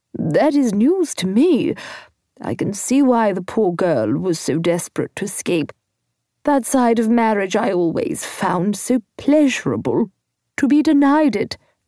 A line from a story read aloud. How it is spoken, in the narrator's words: she sighed